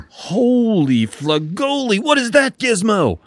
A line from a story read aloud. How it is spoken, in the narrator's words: He screeched